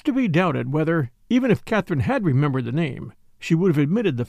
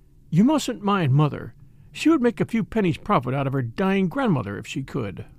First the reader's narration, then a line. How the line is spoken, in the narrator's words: remarking kindly